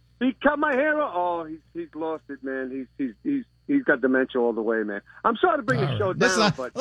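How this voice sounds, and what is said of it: Regional accent. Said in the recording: “You hear the accent.”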